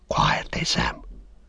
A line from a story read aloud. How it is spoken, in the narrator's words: Frodo whispered